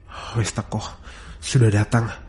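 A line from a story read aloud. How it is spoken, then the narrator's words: Inner murmur. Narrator (Indonesian): gumamku dalam batin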